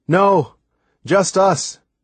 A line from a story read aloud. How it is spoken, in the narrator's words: I called out